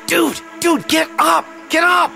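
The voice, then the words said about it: Shouting urgently. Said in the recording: “Why are you shouting?”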